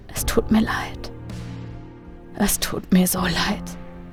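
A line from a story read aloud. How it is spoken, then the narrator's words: Whispered. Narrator (German): flüsterte er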